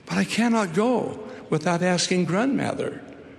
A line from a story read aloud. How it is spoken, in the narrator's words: faltered Rupert